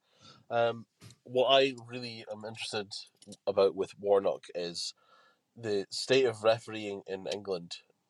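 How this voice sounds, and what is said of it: Congested, stuffy-sounding voice. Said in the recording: “Forgive my voice, I'm a bit full of a call, you see.”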